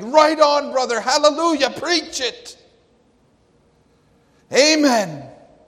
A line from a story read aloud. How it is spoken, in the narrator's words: they jumped up and screamed